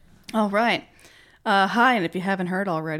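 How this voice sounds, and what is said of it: Usual voice. Nothing is said of it.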